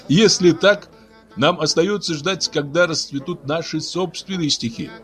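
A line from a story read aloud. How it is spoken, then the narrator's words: Laughing. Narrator (Russian): сказал Магавья, смеясь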